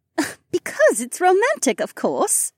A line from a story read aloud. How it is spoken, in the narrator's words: Becca scoffed